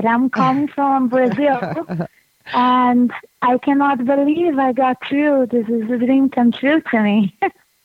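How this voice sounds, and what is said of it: Strong Brazilian accent in English. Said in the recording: “I hope you can understand my English. I have a really big accent, so I hope that you can understand me.”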